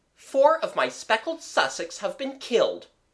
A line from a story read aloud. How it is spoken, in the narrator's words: exclaimed